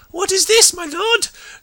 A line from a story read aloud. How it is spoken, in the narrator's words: Zarek shrieked, struggling in vain to free himself